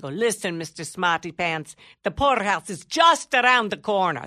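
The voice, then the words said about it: Poor put-on Italian accent. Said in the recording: “a little Italian lady ... It's a terrible accent”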